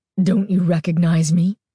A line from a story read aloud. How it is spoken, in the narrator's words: Carly Beth rasped